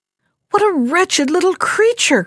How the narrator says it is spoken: cried one brother

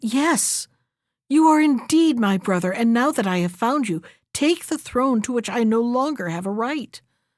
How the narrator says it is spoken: the king, recovering from his astonishment, exclaimed

